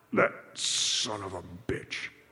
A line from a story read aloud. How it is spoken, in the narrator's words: he growled just audibly